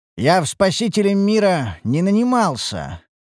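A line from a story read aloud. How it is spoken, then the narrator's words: Grumbling, coughing, in pain. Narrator (Russian): пробурчал я, кашляя из-за поднявшейся пыли и морщась от жестокой боли в пораненной руке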